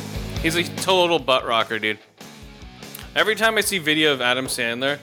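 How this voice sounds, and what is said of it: Usual voice. Nothing is said of it.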